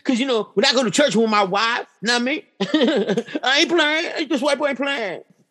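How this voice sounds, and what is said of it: Imitates another person's voice. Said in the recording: “That's my Gary Owen impression.”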